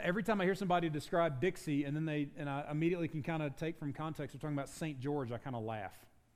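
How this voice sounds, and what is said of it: Southern US accent. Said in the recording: “You can probably tell by my accent, I'm not from these parts... I grew up in Dixie”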